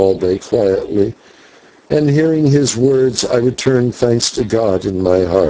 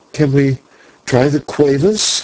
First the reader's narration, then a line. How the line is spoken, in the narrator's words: faltered Maya